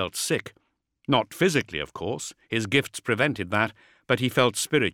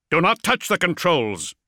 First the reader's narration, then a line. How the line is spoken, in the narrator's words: Zerberin snapped